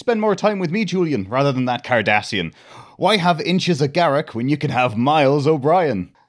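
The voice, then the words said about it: Poor put-on Irish accent. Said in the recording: “I apologise for my Irish accent, that was naff.”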